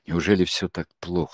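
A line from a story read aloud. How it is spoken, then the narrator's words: Dejected voice. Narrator (Russian): спросил Андрей упавшим голосом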